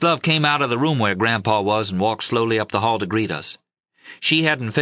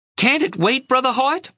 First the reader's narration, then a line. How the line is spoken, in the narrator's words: Loma screeched